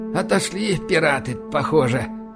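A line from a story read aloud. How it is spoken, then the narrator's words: Exhaled. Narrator (Russian): выдохнул Байкин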